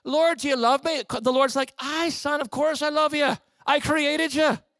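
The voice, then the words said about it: Put-on Irish accent. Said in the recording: “He talks like this. Well, the Irishman's accent's very easy ... in an Irish accent”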